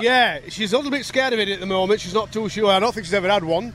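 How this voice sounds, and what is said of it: Yorkshire English accent. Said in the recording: “So I sense an accent here. ... Yeah, that's right. I'm from Yorkshire.”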